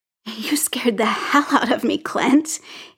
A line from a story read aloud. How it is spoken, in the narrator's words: he said, and the words dissolved into laughter